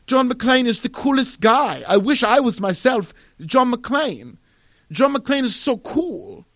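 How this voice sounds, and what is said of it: Put-on European accent. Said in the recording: “I'm not going to do a Finnish accent. I'll just do a European accent.”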